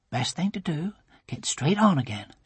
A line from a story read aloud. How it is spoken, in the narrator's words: she murmured